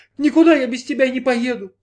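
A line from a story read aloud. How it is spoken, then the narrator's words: Sobbing. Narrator (Russian): снова зарыдала Джанна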